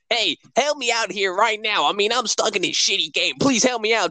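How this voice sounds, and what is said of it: Imitates Sonic's character voice. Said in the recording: “you could tell by his voice.”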